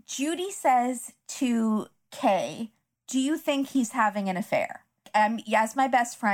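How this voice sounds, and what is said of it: Usual voice. Nothing is said of it.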